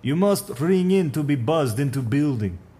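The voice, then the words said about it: Put-on Russian accent. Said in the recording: “A voice came from up the hall, Russian accent.”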